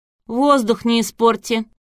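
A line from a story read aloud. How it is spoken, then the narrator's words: Mocking shout. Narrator (Russian): насмешливо выкрикнула Василиса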